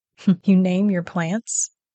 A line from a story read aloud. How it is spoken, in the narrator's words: Trevor chuckled